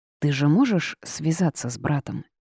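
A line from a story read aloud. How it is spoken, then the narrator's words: Quiet question. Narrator (Russian): тихо поинтересовалась я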